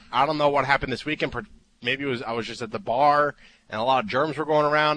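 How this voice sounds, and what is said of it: Sick-sounding voice. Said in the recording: “You can probably hear it in my voice. I'm a little sick.”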